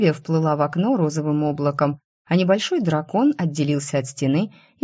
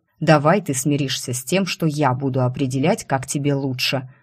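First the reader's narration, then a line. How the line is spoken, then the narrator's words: Growled. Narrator (Russian): рыкнул Вис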